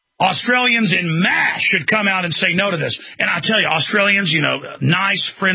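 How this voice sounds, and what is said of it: Usual voice. Nothing is said of it.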